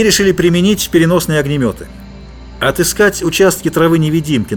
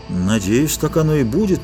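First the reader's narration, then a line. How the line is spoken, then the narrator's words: Uncertain agreement. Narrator (Russian): неуверенно согласился Грегор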